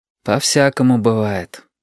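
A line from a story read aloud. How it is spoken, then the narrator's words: Sighed. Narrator (Russian): вздохнул Юр Танка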